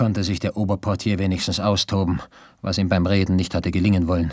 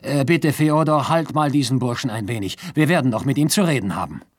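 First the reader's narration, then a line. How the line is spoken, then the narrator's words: Called out. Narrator (German): rief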